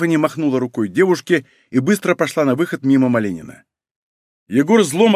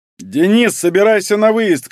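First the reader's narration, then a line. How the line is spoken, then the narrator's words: Shouted. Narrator (Russian): крикнул Малинин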